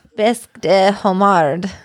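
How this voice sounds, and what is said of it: Attempted French accent. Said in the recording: “I don't have the accent to go with it... Is that better? Is that a good accent?”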